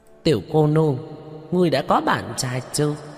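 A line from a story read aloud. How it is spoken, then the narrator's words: Loud laughter. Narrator (Vietnamese): Bọn Hứa Đại Tráng cười lớn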